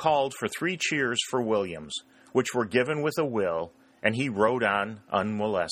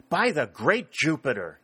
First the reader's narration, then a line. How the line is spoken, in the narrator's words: exclaimed Sherburne